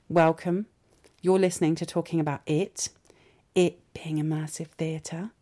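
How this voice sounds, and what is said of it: Whispering. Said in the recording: “I'm whispering.”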